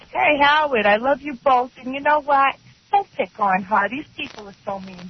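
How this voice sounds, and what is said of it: Brooklyn accent. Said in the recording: “We have the same accent ... you're from Brooklyn”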